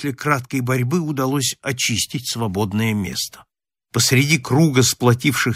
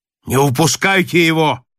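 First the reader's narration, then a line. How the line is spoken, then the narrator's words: Shouting sailor. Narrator (Russian): крикнул рослый матрос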